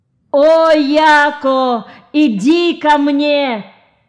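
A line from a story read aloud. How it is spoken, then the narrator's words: Wailing. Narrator (Russian): Взвыл голос Токо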